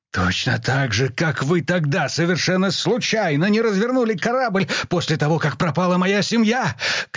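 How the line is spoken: Shouted in the face. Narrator (Russian): крикнул он Бонхёфферу прямо в лицо

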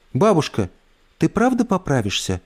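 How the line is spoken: Timid question. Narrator (Russian): робко спросила Эльса

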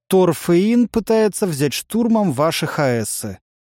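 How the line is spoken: Bored voice. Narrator (Russian): скучным голосом проговорил Олег

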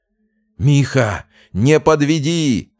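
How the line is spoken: Hoarse straining shout. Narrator (Russian): срывая голос, орал со скамейки запасных Фомин

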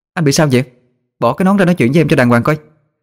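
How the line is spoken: Annoyed loud shout. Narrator (Vietnamese): Tôi bực bội hét lớn

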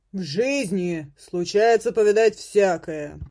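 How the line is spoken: Booming bass voice. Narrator (Russian): прогремел в ответ чей-то бас

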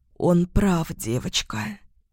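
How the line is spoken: Hoarse supportive seer. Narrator (Russian): сипло поддержала его видящая

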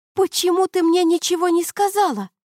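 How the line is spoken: Shrieking. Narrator (Russian): взвизгнула она

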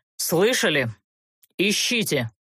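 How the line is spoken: Order through clenched teeth. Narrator (Russian): приказал Олтерн сквозь зубы

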